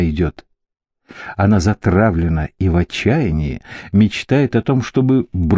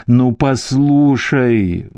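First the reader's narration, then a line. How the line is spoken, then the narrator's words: Pleading. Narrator (Russian): взмолился голос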